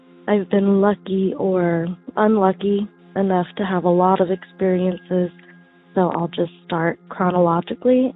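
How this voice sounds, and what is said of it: Sick-sounding voice. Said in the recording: “I apologize for my voice. I'm a little sick.”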